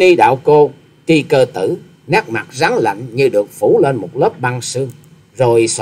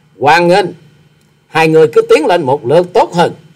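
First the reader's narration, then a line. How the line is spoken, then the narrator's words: Booming laugh. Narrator (Vietnamese): Quái nhân áo trắng bật cười lòng lộng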